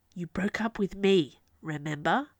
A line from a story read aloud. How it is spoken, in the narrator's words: said in a low hiss